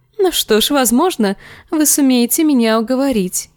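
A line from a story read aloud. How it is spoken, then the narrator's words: Giggle. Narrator (Russian): хихикнула она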